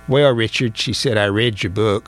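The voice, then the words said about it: Imitates another person's voice. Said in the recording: “excuse me for imitating my cousin Jeanette”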